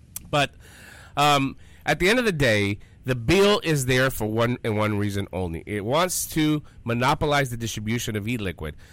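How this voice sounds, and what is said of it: Hoarse, fading voice. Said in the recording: “Excuse me. I'm losing my voice.”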